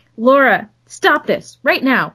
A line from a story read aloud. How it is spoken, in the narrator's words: her mother snapped